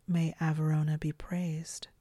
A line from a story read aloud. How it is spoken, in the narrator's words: the sister continued, more softly